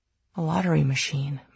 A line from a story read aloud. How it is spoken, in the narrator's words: murmured Julian